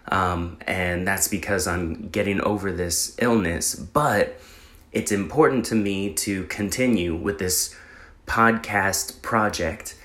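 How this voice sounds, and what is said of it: Voice sounds slightly sick. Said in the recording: “I'm sure you can tell my voice sounds a little different than normal”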